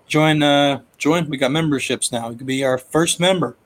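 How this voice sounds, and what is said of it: Hoarse, fading voice. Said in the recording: “losing my voice even more”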